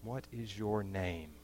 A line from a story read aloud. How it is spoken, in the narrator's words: the old man whispered